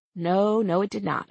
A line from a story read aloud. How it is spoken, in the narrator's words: I said